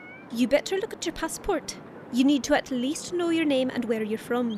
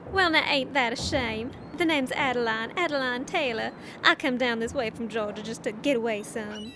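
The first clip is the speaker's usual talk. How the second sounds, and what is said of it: Put-on American southern accent. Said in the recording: “You're Irish. Why can you do a southern accent?”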